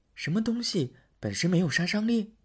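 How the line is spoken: Soft question. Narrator (Chinese): 公主轻声的问

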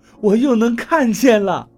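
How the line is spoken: Laughing through tears. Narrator (Chinese): 我把脸上的眼泪擦干净，对王八笑道

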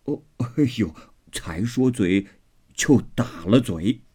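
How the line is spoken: Laughing. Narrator (Chinese): 刘姥姥自己也笑了，说道

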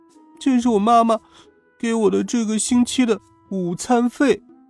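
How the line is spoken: Frightened sobbing child. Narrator (Chinese): 小男孩吓哭了，抽抽搭搭的说

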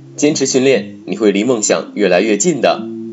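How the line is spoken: Smiling, encouraging. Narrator (Chinese): 安娜也笑着说

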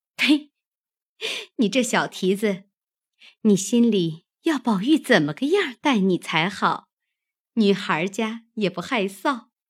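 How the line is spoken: Laughing scold. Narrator (Chinese): 紫娟听他说的好笑，便扑哧的一笑，啐道

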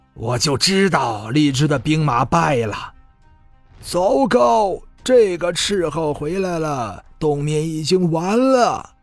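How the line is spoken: Long heavy sigh. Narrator (Chinese): 一众将领们都是巍然长叹

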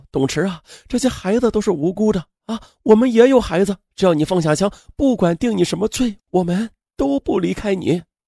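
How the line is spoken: Crying, shouting plea. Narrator (Chinese): 董池的爱人王阿颖哭着喊道

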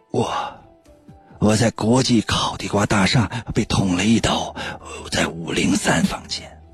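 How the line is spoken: Weak hoarse voice. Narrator (Chinese): 老张用微弱沙哑的声音说

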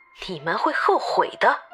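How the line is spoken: Cold sneer. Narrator (Chinese): 神女冷笑道

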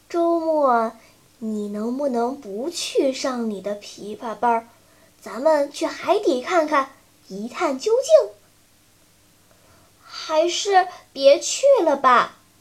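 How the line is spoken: Quiet suggestion. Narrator (Chinese): 晨晨小声建议道

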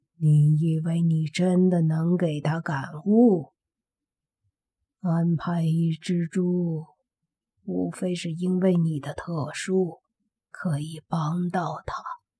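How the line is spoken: Low whisper. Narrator (Chinese): 中年人 用黑猪听不到的声音低低的细语

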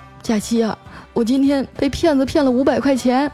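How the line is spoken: Mournful. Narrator (Chinese): 他哭丧着脸对我说

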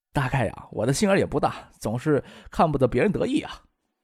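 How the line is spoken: Hushed, laughing. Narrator (Chinese): 石学兵说这话时，情不自禁的更压低声音，又笑道

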